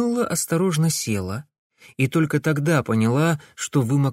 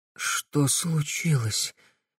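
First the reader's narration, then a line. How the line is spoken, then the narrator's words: Young woman, hoarse question. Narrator (Russian): хрипло спросила девушка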